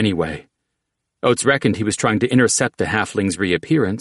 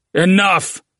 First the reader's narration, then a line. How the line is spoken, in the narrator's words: Oat shouted